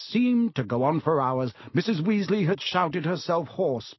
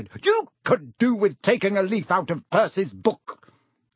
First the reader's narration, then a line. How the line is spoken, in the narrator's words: yelled Mrs